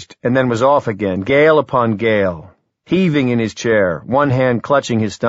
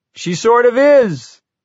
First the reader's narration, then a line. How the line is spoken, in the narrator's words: Wireman cried, cackling so crazily he was almost incoherent